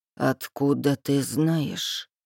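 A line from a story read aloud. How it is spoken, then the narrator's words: Very quiet question. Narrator (Russian): спрашивает он очень тихо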